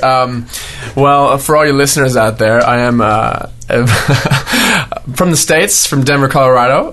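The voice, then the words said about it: Mixed Australian and American accent. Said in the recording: “half Aussie, half American accent ... Who's this Yank?”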